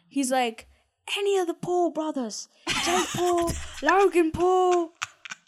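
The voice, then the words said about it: Put-on British accent. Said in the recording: “Sorry for my horrible British accent ... no, that was good.”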